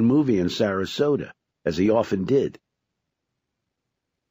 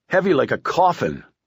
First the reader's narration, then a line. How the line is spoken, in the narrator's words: his mind shrieked